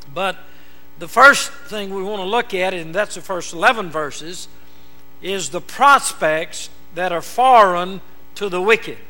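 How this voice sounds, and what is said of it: Southern American drawl. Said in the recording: “I have a southern drawl”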